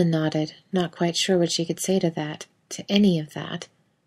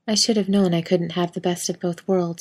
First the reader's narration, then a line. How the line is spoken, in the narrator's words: said calmly, smile fading